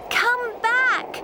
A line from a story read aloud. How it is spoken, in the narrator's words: shouted Anna